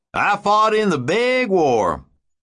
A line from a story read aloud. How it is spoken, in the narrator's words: the old man cackled with pride